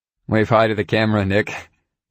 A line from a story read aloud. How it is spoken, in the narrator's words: Ryan said with a laugh